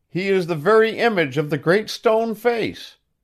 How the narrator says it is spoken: Still, nevertheless, with an earnest shout, and evidently with as much good faith as ever, the people bellowed

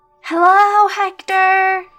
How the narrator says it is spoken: yelled the boy, whose name was Danny

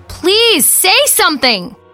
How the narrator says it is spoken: screaming into the floor now, sitting on my knees

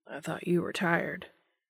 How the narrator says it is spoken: he says softly

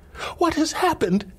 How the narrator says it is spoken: she cried again

